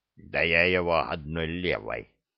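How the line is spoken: Orc's displeased grumble. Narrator (Russian): недовольно буркнул от костра орк

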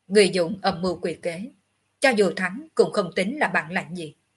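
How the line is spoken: Cold. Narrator (Vietnamese): Ngọc Hư Tử lạnh lùng

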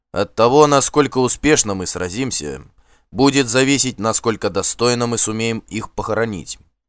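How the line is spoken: Loud speech. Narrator (Russian): громко сказал

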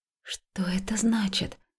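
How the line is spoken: Whispered. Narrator (Russian): прошептала

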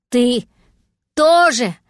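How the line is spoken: Breathless gasping shout. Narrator (Russian): прокричал ему кот, судорожно глотая воздух

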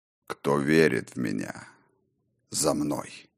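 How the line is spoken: Low but carrying. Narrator (Russian): Негромко, но опять же так, чтобы услышали все и каждый, проговорил хозяин упорядоченного

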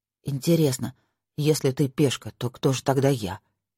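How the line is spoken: Grumbling mutter. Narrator (Russian): буркнул Ник

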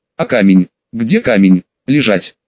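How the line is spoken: Stern curt retort. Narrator (Russian): Строго отрезал я

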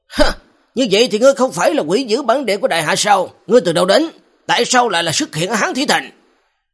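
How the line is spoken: Barked question. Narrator (Vietnamese): Lục Dương quát hỏi

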